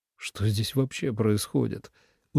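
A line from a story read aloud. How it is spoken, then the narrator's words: Weary drawl. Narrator (Russian): устало протянул Ленард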